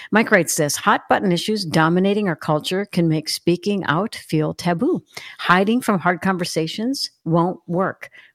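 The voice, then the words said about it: Rough, unwell-sounding voice. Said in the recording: “excuse my voice, a little under the weather here today”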